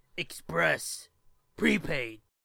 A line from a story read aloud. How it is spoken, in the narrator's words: grunted in a highly unnatural voice